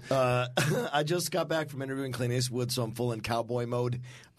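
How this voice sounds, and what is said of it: Hoarse, rough voice. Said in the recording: “is a little bit hoarse. He's a little under the weather ... my throat is terrible”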